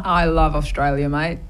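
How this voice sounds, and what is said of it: Put-on Australian accent. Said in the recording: “I'll see if I can answer in an Australian accent ... That was pretty good.”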